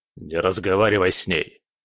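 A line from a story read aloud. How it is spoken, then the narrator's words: Barked shout. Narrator (Russian): рявкнул Кретов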